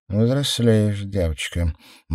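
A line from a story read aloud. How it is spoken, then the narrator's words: Gloomy inner thought. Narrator (Russian): мрачно подумала Мор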